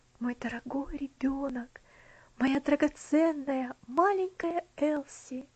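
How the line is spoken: Whisper. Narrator (Russian): прошептал

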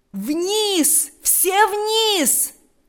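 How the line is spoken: Loud commanding shout. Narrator (Russian): закричал генерал громким, язычным голосом, перекрывшим все звуки

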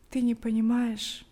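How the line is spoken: Heavy sigh. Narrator (Russian): Каримский тяжело вздохнул

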